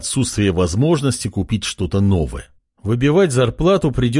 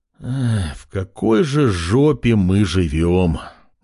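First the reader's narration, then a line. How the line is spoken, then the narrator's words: Sorrowful sigh, young man. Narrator (Russian): горестно вздохнул парень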